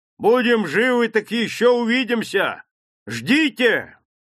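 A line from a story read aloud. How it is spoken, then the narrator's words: Hunter's shout. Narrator (Russian): охотник крикнул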